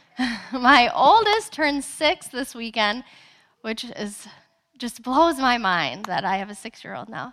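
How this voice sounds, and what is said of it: Slightly raspy voice. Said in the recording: “My voice might be just a little raspy.”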